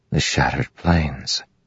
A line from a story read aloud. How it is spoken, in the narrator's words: Kaladin whispered